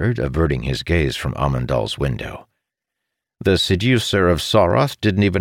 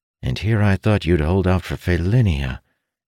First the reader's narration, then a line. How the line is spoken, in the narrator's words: Ilden sighed